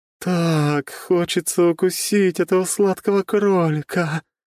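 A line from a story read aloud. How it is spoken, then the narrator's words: Moaning voice. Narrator (Russian): простонал голос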